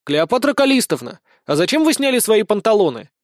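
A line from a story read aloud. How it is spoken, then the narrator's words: Loud shout. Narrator (Russian): громко крикнул Никита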